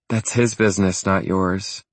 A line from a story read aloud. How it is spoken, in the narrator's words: she said evenly